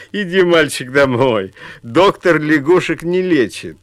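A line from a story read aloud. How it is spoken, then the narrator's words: Laughing crowd talking. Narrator (Russian): Все вокруг смеялись и говорили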